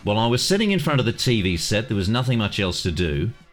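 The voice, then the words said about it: Put-on Australian accent. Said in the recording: “I should read this in an Australian accent, probably.”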